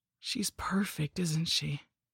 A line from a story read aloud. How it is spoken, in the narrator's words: whispered